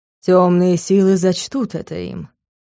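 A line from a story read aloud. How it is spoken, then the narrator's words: Lord speaking. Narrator (Russian): произнёс владыка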